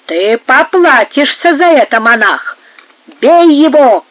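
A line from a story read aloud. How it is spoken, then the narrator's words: Enraged group shouting. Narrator (Russian): крикнули взбешенные карлисты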